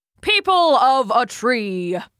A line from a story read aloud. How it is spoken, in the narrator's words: he boomed, his voice carrying over the crowd like a warm breeze